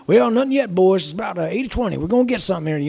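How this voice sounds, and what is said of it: Put-on Texan accent. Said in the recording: “said he was from Texas... I love the accent.”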